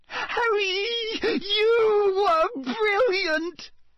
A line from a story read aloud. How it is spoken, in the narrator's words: Hermione said squeakily